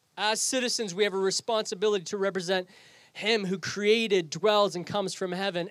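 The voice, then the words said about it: Canadian English accent. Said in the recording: “I sound like a Canadian. I don't sound British. I don't sound English. ... where's your accent?”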